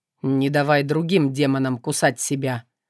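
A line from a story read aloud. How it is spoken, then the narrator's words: Cold declaration. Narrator (Russian): холодно заявил он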